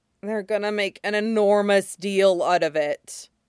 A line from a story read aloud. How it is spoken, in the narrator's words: Jiang Cheng groaned